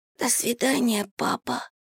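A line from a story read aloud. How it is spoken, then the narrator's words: Whisper. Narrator (Russian): прошептал Кирюша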